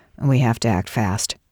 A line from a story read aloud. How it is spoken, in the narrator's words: said